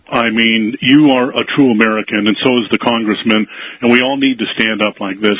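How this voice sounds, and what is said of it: Deep radio broadcaster voice. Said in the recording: “You sound like you got a radio voice ... we already have deep voices, so that tailors us for radio”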